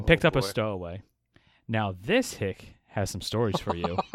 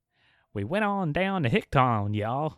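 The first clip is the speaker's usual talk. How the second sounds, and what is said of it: Bad put-on hick accent. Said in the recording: “That was a terrible accent.”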